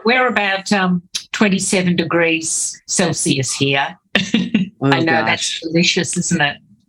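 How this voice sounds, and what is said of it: Australian accent. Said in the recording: “I can hear your accent. ... your beautiful Australian wildflowers”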